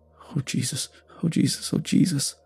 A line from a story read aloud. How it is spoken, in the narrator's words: The bus driver muttered